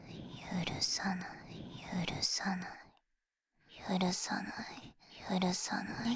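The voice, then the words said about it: Whispering. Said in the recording (Japanese): “両耳同時に囁いて”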